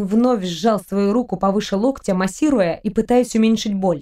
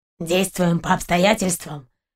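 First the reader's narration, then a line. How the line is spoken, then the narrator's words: Muffled, dull. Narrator (Russian): глухо уточнил Сапер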